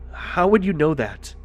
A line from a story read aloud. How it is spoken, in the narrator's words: Stan stammered nervously